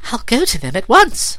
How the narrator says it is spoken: she cried

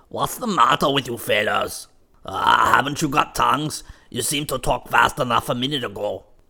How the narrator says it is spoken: said Jim Crow gruffly

